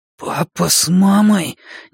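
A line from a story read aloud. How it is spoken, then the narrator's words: Sudden hoarse wheeze. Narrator (Russian): неожиданно просипел я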